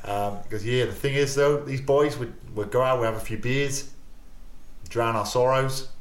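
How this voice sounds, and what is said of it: Bad impression of Buck Shelford's accent. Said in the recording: “I'm trying to do the accent now... I don't even know what that accent was, mate... It's bloody awful.”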